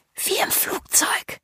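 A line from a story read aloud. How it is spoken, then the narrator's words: Whisper. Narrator (German): flüstert Cassie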